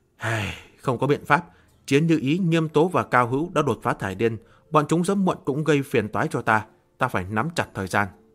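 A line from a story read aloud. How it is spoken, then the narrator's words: Sighing. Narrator (Vietnamese): Miêu Nghị thở dài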